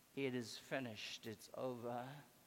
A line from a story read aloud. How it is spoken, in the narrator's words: the crowd said in their voices, whispering